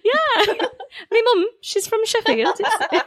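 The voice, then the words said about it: Northern English accent. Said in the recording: “That's a really good accent”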